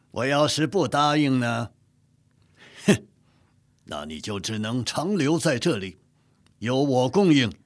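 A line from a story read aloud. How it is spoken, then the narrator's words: Chuckling. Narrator (Chinese): 讷亲咯咯一笑说道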